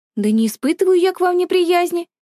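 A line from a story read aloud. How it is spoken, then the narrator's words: Exclaiming woman. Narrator (Russian): воскликнула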